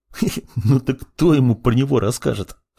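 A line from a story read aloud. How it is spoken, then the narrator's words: Chuckling student. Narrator (Russian): хохотнул другой студент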